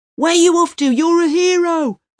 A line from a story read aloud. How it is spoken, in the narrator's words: the first hard hat yells at him, surprised